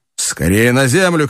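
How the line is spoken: Shout. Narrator (Russian): крикнул Кеннеди

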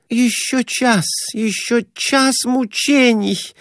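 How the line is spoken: Moaning woman. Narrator (Russian): Продолжала стонать Глафира Семеновна

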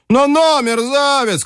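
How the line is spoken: Shouting. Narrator (Russian): крикнул тот

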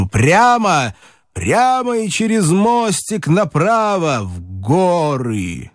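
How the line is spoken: Shouted. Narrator (Russian): Он крикнул Телегину

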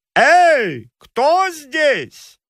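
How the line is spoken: Loud shout. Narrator (Russian): Нарцисс громко крикнул

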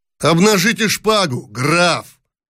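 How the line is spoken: Shouted while advancing. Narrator (Russian): крикнул, наступая

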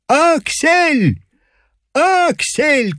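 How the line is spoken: Shout. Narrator (Russian): кричал он

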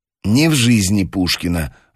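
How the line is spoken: Irritated. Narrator (Russian): раздраженно сказала блондинка

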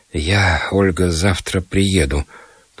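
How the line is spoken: Trembling repetition. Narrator (Russian): повторил он дрожащим голосом

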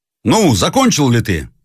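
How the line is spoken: Shout. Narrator (Russian): закричал молчаливый офицер своему товарищу

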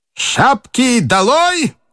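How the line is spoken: Sudden shout in Russian. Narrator (Russian): внезапно крикнул по-русски чудной офицер

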